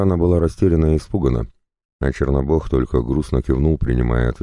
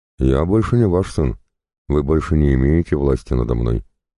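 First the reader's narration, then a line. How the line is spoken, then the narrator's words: Calm. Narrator (Russian): спокойно произнес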